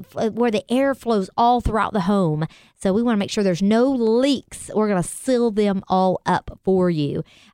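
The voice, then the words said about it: Texas accent. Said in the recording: “That's your Texas accent.”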